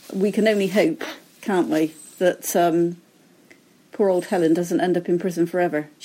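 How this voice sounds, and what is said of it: Noticeable accent. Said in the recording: “I guess you guessed that from the accent.”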